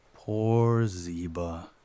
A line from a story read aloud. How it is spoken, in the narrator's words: sighed